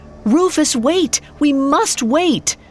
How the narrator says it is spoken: He cried out

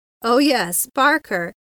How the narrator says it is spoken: he laughed

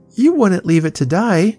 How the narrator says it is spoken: cried Tilly

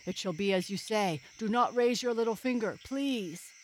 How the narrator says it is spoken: he cried

